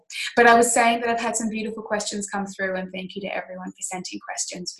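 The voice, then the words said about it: Slightly croaky, nasal voice. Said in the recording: “I'm a little bit unwell at the moment and I'm just coming off the tail end of a cold. So if I'm a little bit croaky or nasally at any point ... my voice is a little off”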